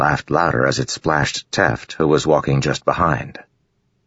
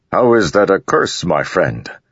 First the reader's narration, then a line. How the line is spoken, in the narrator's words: Rock asked, chuckling